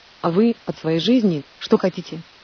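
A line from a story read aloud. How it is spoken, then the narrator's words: Quiet, thoughtful question. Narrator (Russian): негромко, словно в глубоком раздумье, спросил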